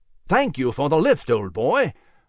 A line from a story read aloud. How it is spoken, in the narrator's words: Nigel exclaimed